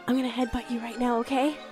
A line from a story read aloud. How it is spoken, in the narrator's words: I whisper to him